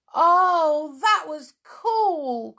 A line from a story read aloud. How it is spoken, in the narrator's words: cried Jack